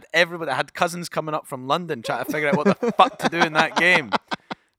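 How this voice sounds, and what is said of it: Scottish accent. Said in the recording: “the Scottish accent”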